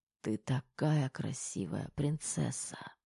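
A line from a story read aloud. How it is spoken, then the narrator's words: Muffled whisper. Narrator (Russian): приглушенный шепот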